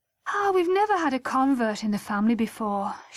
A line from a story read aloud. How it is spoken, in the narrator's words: she sighed